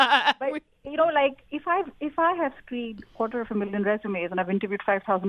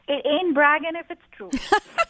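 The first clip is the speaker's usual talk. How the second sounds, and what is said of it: Put-on American accent. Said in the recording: “I'm speaking American... I love your impersonations... I'm impersonating an American accent on American radio”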